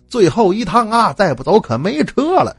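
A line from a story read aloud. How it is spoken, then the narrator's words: Woman calling loudly. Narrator (Chinese): 喊座的妇女冲着一个农民模样的中年汉子大声叫道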